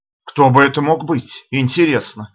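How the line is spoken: Exclaiming to himself. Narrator (Russian): воскликнул я, обращаясь скорее к самому себе, нежели чем к Эстер

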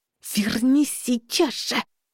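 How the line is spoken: Hissed, suppressed shout. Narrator (Russian): Зашипела я, не закричав только потому, что мы все еще пытались не привлекать к себе внимания

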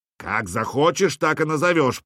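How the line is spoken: Displeased growl. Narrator (Russian): прорычал Хрольф, недовольный тем, что больше не в центре внимания

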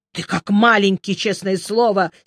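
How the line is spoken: Angry. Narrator (Russian): сердито сказал он

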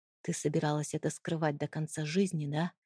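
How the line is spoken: Quiet, pained. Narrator (Russian): тихо спросил он, и в его голосе звучало столько боли

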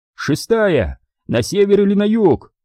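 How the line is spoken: Shouted. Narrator (Russian): закричал Дэйв

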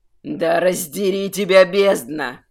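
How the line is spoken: Furious growl. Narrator (Russian): Зарычал от такого зрелища архимаг

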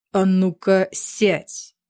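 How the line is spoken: Growled. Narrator (Russian): прорычал Рис

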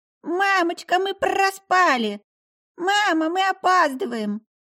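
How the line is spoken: Squealing sleepy children. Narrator (Russian): сонные ягодки залетели в комнату с визгами

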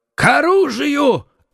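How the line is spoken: Shouted. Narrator (Russian): крикнул Гримо

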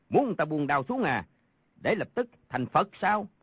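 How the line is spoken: Guffawing shout. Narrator (Vietnamese): Đoàn Thiên Đức hô hố cười rộ quát

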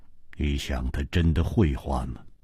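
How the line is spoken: Cold. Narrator (Chinese): 姬冰燕冷冷地说

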